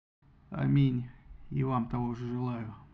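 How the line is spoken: Gloomy grumble. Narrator (Russian): мрачно буркнул Агамемнон

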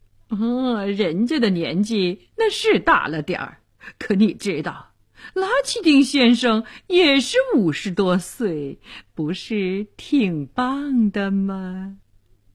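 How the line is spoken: Flippant, grinning. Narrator (Chinese): 医生……嬉皮笑脸地说

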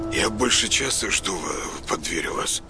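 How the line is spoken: Mumbled reply. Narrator (Russian): пробормотал он в ответ

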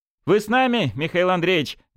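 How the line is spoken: Nervous laughing speech. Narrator (Russian): нервно засмеялся Журавлев

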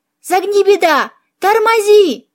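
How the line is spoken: Panicked yell. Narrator (Russian): завопил Филипп

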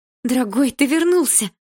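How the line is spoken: Joyful mother's exclamation. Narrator (Russian): Радостно воскликнула мама

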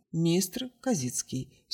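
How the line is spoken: Dry. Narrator (Russian): сухо ответил блеклый

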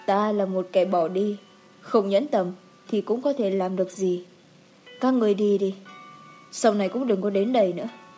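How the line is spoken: Muttering. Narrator (Vietnamese): Tiết Minh lẩm bẩm

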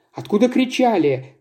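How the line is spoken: Exclaiming. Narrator (Russian): воскликнула Тая

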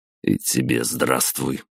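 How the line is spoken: Grumbling. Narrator (Russian): проворчал я

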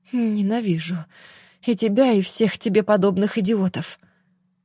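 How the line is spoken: Muttering under breath. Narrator (Russian): бормотала Марфа себе под нос

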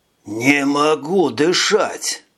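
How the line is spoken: Groaning, breathless. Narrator (Russian): Простонал он

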